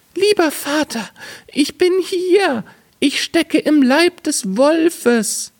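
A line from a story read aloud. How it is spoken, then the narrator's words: Call. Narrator (German): rief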